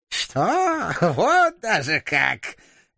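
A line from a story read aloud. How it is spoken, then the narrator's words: Choking with laughter. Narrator (Russian): Глава клана не сразу смог говорить от душащего его хохота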